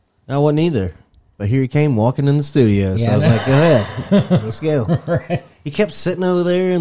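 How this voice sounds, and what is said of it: Usual voice. Nothing is said of it.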